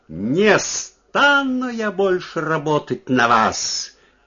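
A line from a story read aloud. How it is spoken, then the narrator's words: Loud shout. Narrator (Russian): крикнула она громко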